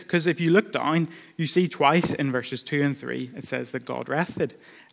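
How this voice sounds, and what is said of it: Speaker with a noticeable accent. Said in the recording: “maybe it's because of my accent, but people often misunderstand me”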